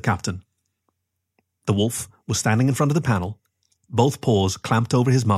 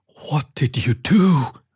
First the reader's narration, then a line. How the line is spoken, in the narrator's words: gasped the chief in a whisper